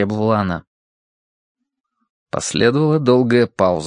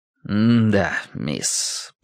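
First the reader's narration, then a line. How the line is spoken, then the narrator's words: Tired confirmation. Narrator (Russian): подтвердил Бэйн устало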